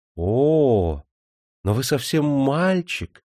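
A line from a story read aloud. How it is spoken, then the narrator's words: Delighted whisper. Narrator (Russian): восторженно прошептала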